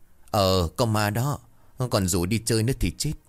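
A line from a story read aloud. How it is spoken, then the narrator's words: Cold dry laugh. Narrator (Vietnamese): Thiên cười nhạt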